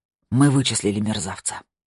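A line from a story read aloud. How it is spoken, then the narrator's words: Breathed out. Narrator (Russian): выдохнул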